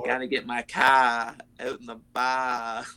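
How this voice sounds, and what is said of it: Weak put-on Boston accent. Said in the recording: “give us your best Boston or American accent ... I'm not very good at doing that ... it needs work, but it's not the worst we've heard on the show”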